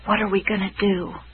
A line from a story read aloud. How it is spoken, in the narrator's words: he whispered